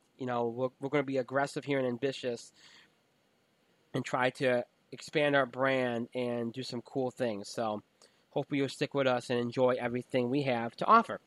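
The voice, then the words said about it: Strained, fading voice. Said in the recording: “I'm losing my voice. It's late. We're already past midnight.”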